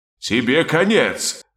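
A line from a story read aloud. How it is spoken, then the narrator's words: Furious roar. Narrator (Russian): разгневанно взревел король хаоса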